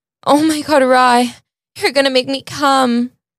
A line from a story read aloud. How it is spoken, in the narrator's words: Scarlett moaned